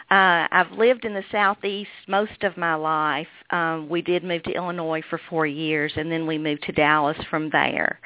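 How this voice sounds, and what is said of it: Kentucky accent. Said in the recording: “I'm from Kentucky. That's the reason I speak with this accent.”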